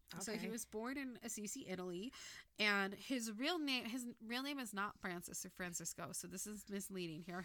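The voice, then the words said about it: Typical valley girl accent. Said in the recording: “I have your typical valley girl accent”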